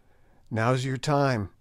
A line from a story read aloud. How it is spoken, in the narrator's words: I whispered